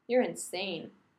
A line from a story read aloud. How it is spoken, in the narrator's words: Rodney says flatly